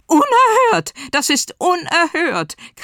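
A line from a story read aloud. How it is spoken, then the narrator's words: Shriek. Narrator (German): kreischte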